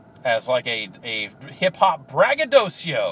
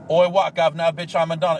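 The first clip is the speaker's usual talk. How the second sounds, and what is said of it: Poor put-on Australian accent. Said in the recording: “that's not a very good Australian accent”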